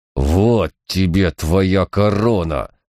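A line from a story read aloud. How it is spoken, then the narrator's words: Growled. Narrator (Russian): прорычал он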